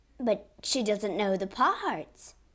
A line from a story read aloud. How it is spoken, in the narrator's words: cried Madame